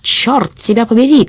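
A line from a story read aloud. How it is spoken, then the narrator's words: Shouted. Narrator (Russian): крикнул он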